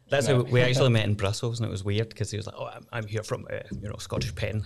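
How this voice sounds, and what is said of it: Glasgow Scottish accent. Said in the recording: “I'm a lawyer from Glasgow. You can tell by the accent”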